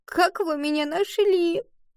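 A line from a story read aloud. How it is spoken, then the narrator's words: Sobbing. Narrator (Russian): Рыдая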